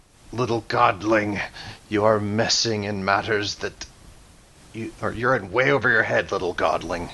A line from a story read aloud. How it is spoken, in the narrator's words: growls